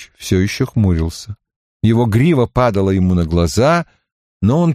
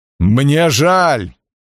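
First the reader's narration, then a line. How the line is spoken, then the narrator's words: Growled. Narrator (Russian): прорычал он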